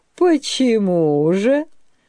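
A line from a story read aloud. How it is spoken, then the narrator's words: Asking after laughing. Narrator (Russian): спросил он, просмеявшись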